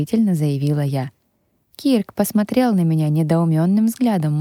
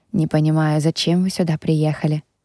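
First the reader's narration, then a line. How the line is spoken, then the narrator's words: Displeased mutter. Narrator (Russian): недовольно пробормотал он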